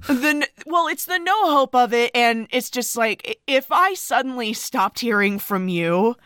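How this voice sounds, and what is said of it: Choked-up, tearful voice. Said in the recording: “getting choked up ... Stop crying.”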